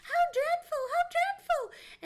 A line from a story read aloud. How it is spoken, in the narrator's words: They excitedly cried